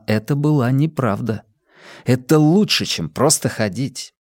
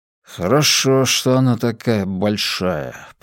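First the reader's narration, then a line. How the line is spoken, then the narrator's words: Father muttering. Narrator (Russian): пробормотал отец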